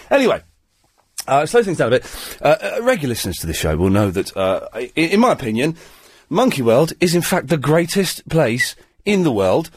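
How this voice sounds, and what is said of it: Breathless, congested voice. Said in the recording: “spluttering away with my third or fourth cold this year ... I'm all out of breath now. I was running back from the loo”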